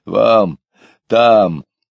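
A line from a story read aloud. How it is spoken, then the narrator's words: Deep yapping bark. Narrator (Russian): Один матрос тявкнул дважды басом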